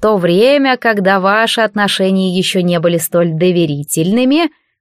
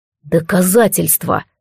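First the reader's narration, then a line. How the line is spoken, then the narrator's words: Through gritted teeth. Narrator (Russian): процедил Алистар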